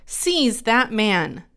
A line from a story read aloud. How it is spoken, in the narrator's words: King Jeroboam heard the man of God speaking against the altar at Bethel, he pointed at him and shouted